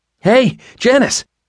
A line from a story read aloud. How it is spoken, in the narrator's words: shouted